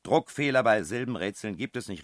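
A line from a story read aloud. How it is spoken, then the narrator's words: Shouting. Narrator (German): rief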